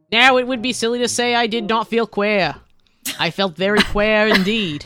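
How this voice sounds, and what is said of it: Cartoon mayor voice, Australian accent. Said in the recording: “That was incredible. ... I love how you were like Mayor Quimby, but also Australian.”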